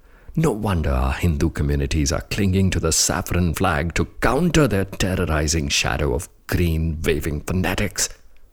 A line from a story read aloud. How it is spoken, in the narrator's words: he muttered and cursed under his breath